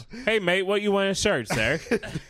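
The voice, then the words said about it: Weak Australian accent sounding British. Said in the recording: “Why are your British accent and your Australia accent the same thing?”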